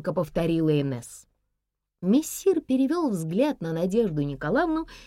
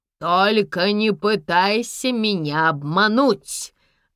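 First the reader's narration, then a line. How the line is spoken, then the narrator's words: Barked. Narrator (Russian): рявкнул мессир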